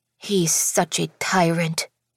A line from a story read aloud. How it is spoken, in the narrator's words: she muttered under her breath